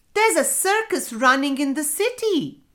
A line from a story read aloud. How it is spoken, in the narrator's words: the farmer, he exclaimed